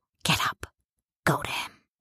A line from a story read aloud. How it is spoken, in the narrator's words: The city whispers